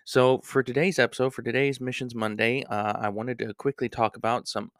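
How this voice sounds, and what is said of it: Voice sounds a little weird. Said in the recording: “apologize for my voice. My allergies are acting up again. I do apologize if it sounds a little weird”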